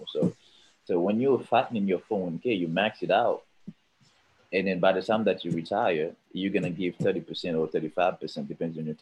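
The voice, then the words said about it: Caribbean accent. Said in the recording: “we have a saying in the Caribbean, because that's where I'm from ... Where the accent is coming from”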